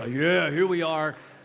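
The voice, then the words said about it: Exaggerated deep low voice. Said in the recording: “a real low voice”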